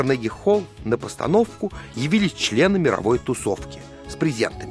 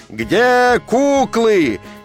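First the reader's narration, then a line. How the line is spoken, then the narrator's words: Crowd roaring. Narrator (Russian): людская масса взревела, как пожарная машина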